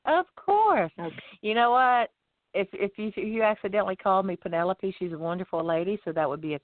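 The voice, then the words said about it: Southern American accent. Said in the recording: “I know I have a southern accent”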